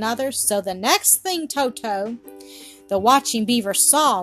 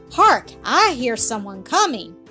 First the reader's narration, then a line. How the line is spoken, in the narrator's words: the red-haired one cried